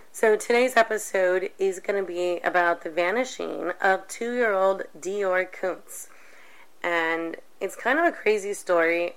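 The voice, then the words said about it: Hoarse, nearly lost voice. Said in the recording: “apologize for my voice. ... I totally lost it over the weekend ... subjected to this voice”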